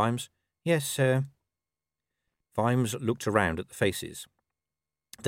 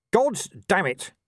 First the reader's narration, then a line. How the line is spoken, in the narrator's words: shouted Vimes, unable to stop himself